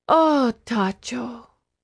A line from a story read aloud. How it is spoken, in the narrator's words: breathed